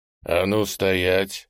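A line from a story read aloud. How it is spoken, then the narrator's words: Icy call. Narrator (Russian): ледяным тоном окликнул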